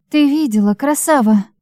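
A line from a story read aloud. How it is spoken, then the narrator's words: Breathless exhale. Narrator (Russian): Девушка выдохнула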